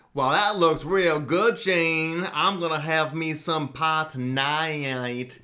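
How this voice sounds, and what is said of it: Put-on Southern American accent. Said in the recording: “does impressions because they're amazing ... can we do the Southern family ... That was amazing ... Probably your best impression yet.”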